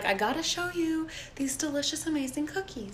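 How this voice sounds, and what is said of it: Soft, sophisticated Martha Stewart impression. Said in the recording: “your Martha Stewart impression. ... It's very soft, sophisticated.”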